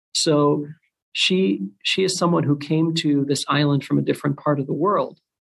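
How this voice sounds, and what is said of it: Speaks with a noticeable accent. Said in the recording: “this accent that you're hearing right now”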